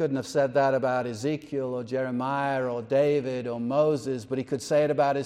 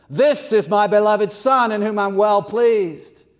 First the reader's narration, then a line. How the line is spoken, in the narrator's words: Only of Christ could the Father bellow out from heaven